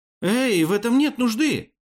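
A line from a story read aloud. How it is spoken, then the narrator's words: Exclaimed. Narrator (Russian): воскликнул Амир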